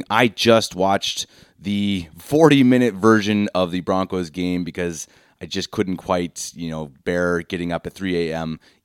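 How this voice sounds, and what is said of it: Sick-sounding voice. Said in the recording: “I'm a little bit sick again, so pardon my voice.”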